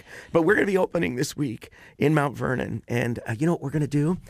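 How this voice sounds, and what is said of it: Slightly hoarse voice. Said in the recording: “my voice is a little hoarse because I've been singing all week”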